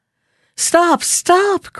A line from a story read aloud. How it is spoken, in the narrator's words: cried the boy